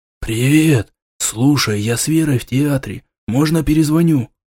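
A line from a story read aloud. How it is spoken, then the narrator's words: Quiet whisper over phone. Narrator (Russian): Тихим шепотом донеслось из трубки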